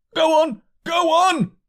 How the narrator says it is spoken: shouted angry voices behind

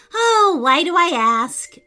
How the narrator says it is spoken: Amelia sighed

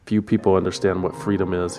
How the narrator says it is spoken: he said

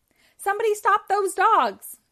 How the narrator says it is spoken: she cried

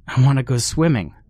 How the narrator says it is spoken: yelled

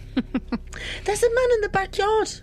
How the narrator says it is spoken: cried

